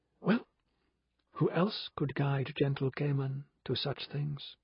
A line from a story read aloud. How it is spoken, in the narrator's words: Pandora murmured